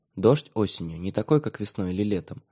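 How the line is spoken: Quiet. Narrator (Russian): тихо, сказал Миша

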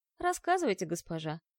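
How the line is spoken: Sighing. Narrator (Russian): вздохнув, сказал Нир

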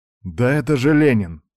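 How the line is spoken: Breathed out. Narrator (Russian): выдохнул Серега

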